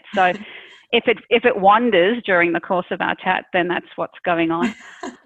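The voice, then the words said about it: South African accent with Australian, American traces. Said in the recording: “my accent is a little bit like a stray dog. It depends where who I'm speaking to, but I'm originally from South Africa ... My kids for the most part are Aussies, and so that comes in a bit, and then my husband is American, so that comes in a bit”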